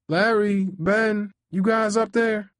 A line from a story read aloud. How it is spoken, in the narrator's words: my mom called out